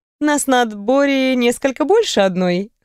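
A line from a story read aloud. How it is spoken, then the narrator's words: Short laugh. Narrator (Russian): хохотнула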